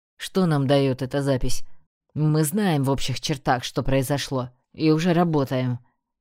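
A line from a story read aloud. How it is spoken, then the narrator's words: Grim orc voice. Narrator (Russian): мрачно заявил орк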